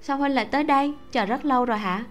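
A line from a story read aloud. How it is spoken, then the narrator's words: Smiling speech. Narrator (Vietnamese): Mạc Hy mỉm cười nói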